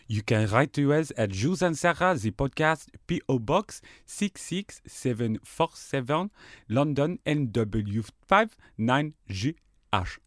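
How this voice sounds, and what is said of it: Put-on French accent. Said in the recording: “What accent?... France... Sorry, I just went into French.”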